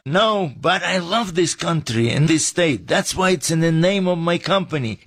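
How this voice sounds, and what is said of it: Non-local accent. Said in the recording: “what's up with your accent? We thought you grew up right here in the valley.”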